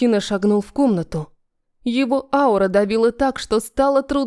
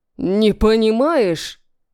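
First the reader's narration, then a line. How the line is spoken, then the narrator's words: Roaring. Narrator (Russian): взревел он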